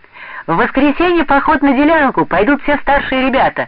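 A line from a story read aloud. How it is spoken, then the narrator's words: Joyful announcement. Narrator (Russian): радостно объявил он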